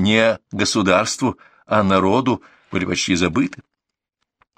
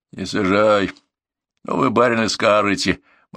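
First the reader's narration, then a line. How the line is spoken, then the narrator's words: Gloomy cab driver. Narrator (Russian): мрачно изрек извозчик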